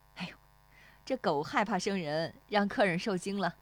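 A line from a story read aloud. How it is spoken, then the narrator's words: Apologetic laugh. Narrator (Chinese): 那妇女对石丽华笑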